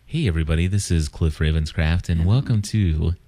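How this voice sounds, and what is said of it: Put-on radio announcer voice. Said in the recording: “that radio voice you were doing in take one ... you're probably falling asleep”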